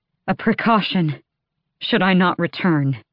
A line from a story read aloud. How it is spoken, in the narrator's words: Aelin panted